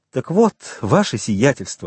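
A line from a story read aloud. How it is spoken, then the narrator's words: Exclaiming. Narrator (Russian): воскликнул Бертуччо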